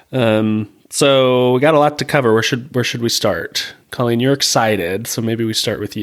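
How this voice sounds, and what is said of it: Sick-sounding voice. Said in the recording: “My voice is a little different because I'm sick”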